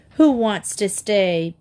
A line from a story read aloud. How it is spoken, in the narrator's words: Pete jeered